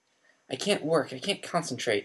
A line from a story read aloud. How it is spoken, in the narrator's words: said nervously